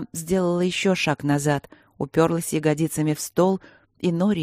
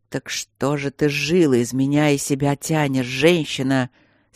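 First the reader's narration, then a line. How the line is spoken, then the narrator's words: Angry dragon growl. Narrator (Russian): сердито рыкнул дракон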